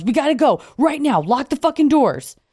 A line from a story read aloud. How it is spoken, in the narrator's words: our friend Harry rushes out to the car and yells